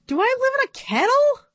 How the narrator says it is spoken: She sputtered

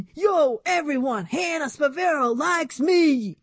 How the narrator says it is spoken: He shouted over and over again to the world

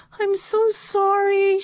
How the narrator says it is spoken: cried

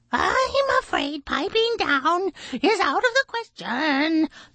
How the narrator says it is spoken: the blue jay screeched

